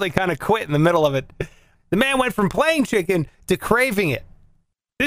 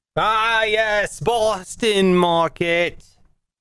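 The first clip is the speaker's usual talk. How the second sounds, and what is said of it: Bad put-on Boston accent. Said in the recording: “That was my Boston accent. I know it was awful.”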